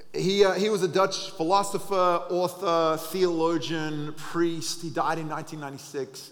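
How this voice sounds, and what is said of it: Australian accent. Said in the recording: “I sound Australian”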